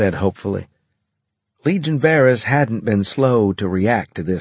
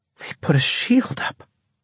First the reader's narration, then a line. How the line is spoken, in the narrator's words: Natasha breathed